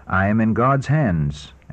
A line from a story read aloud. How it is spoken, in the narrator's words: answered Luther